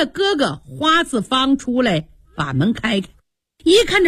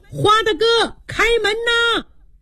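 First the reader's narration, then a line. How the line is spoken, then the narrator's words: Calling at the door. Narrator (Chinese): 明言上前叫门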